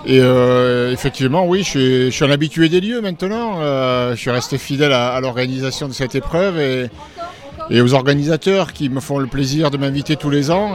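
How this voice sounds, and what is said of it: Southwestern French accent. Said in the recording (French): “Vous n'avez pas tout à fait perdu votre accent d'ailleurs du sud-ouest ... je ne perds pas l'accent du sud”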